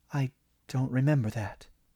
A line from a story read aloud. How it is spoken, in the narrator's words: Diane whispered